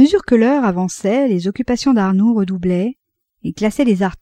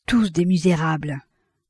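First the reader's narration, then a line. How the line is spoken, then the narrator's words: Murmured. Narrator (French): murmura Reginbart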